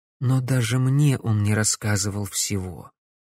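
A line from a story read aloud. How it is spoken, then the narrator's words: Quiet. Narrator (Russian): тихо произнесла Корделия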